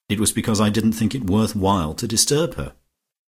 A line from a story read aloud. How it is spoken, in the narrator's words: said Georgie icily